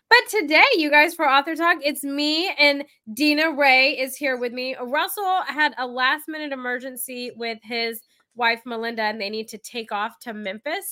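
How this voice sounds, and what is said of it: Nasal, congested voice. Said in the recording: “I am nasally. I'm suffering from like hay fever or something... why I sound nasally.”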